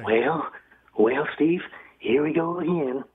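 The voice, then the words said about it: Ronald Reagan impression. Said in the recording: “I want to give you my impression of Ronald Reagan ... That is good. That is pretty good ... That was very good, Reagan.”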